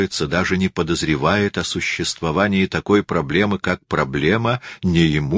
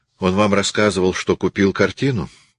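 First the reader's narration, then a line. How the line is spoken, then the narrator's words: Gloomy question. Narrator (Russian): спросила Сесилия мрачно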